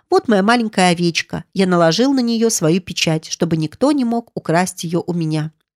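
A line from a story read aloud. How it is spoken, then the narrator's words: Cheerful. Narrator (Russian): весело сказал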